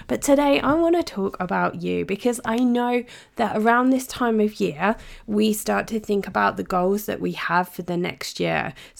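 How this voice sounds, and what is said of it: Slightly sick, congested-sounding voice. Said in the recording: “it has been a week of colds and germs ... my voice might sound a little bit different from normal”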